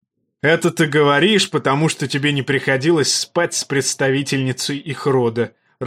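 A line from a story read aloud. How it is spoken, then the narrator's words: Loud laughter. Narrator (Russian): расхохотался Роберт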